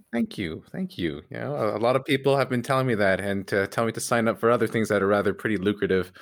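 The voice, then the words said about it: Smooth, rich radio-style voice. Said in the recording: “You have an amazing radio voice”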